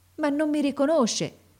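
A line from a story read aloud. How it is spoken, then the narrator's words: Boy, desolate tone. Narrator (Italian): esclamò il ragazzo in tono desolato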